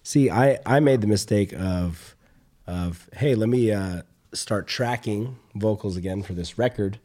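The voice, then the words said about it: Worn-out, hoarse voice. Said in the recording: “My voice is already shot as is. ... screaming my heart out, screaming my throat and my lungs out”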